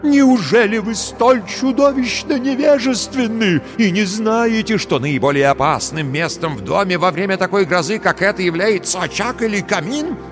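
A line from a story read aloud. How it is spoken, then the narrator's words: Exclaimed. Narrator (Russian): воскликнул он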